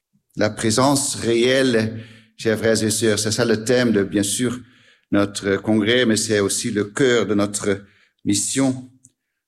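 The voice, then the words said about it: Slight Dutch accent in French. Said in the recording (French): “un petit accent, ... c'est parce que je suis hollandais”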